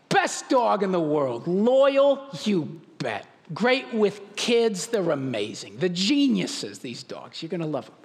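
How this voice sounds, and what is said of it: New York accent. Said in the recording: “He was a New Yorker ... I trust that accent.”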